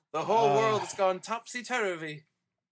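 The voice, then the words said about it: Bad British accent. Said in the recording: “that was a bad British accent”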